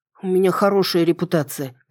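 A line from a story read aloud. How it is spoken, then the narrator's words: Grumbled. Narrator (Russian): проворчала я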